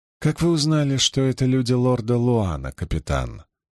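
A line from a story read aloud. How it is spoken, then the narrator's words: Calm question. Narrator (Russian): спокойно спросила Илэйн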